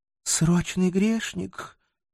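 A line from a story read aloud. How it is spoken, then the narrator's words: Sad sigh. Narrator (Russian): печально вздохнула Озрела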